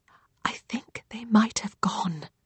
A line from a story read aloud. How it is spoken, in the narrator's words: Rose whispers